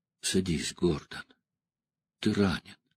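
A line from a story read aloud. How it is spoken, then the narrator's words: Strikingly soft. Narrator (Russian): Деннис сказал поразительно мягко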